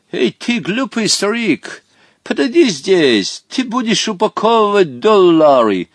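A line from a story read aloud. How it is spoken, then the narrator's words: Shouted. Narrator (Russian): крикнул Хоттабычу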